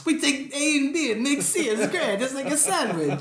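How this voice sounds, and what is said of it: Put-on vaguely Italian accent. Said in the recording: “I don't know why he had that accent... I don't even know what accent we were doing... Is it Italian? Is that what we were doing?”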